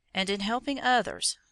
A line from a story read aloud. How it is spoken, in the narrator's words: said the hermit